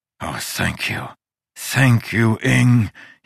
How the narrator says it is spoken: wheezed

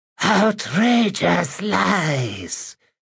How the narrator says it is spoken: said Lazandor in his breathy, wispy voice

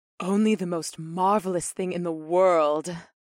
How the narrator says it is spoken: Ipseth breathed

